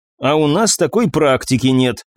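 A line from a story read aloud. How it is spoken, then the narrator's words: Grumbling. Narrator (Russian): проворчала Дебора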